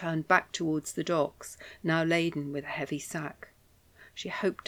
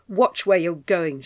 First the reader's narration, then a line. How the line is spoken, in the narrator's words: snapped